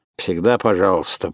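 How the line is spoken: Grumbling mutter. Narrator (Russian): пробурчал

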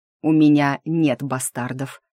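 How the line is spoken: Angry, through gritted teeth. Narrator (Russian): зло процедил я в ответ

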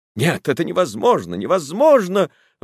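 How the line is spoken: Exclaiming. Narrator (Russian): воскликнула она

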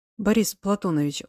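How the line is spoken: Pleading voice. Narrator (Russian): умоляющим голосом произнес

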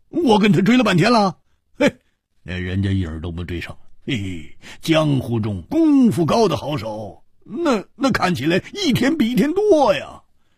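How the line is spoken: Wry laugh. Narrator (Chinese): 胡铁花苦笑着说

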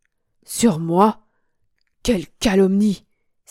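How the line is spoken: Indignant exclamation. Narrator (French): s'écria mon amoureux

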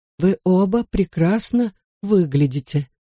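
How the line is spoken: Slightly trembling voice. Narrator (Russian): наконец проговорила она чуть дрожащим голосом

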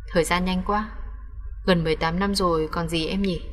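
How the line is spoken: Cold-faced man speaking. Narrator (Vietnamese): Nhưng khuôn mặt lạnh lùng băng lãnh, người đàn ông nắm tay người phụ nữ nói

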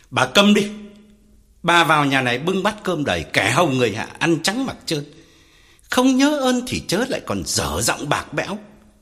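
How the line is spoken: Furious loud shout. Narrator (Vietnamese): Ông Phú tái mặt quát lớn

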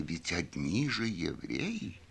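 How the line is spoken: Lowered voice, near whisper. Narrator (Russian): понизив голос, почти шепотом проговорила

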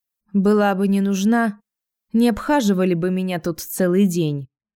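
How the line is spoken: Tired smirk. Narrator (Russian): устало усмехаюсь

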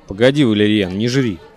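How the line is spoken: Grumbling mutter. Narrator (Russian): Пробурчал Ляпишев

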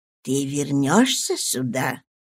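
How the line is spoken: Lowered to a whisper. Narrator (Russian): Леди Дженнет понизила голос до шепота

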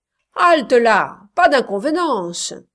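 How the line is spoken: Several voices shouting. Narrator (French): criaient d'autres

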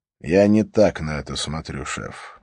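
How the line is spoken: Sigh. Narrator (Russian): вздохнул Харри

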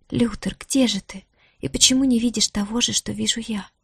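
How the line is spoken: Female whisper. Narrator (Russian): прошептала Диара

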